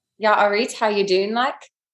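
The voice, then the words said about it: Attempted accent slipping into Australian. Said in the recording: “It always turns Australian... It actually did. It went a bit Australian there.”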